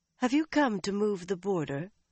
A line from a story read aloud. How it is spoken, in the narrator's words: Elaine asked suddenly and coolly